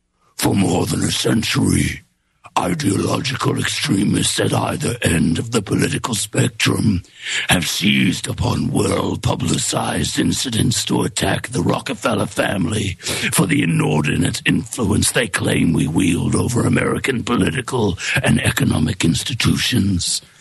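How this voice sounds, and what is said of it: Demonic voice. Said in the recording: “Like a demon voice?”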